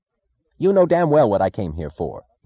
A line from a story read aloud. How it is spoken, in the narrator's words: he snapped